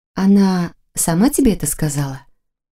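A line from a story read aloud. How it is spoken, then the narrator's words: Exasperated sigh. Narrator (Russian): Яна вздохнула, как будто уже уверившись в непроходимой тупости своей взрослой собеседницы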